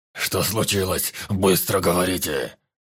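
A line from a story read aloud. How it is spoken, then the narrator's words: Growled. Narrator (Russian): зарычал вожак племени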